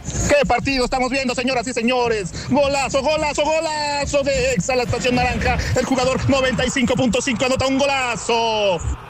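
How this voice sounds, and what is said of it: Put-on Italian accent. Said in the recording (Spanish): “como que con acento italiano, ¿no?”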